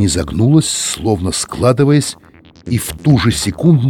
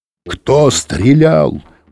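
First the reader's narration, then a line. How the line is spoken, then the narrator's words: Roar through megaphone. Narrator (Russian): проревел мегафон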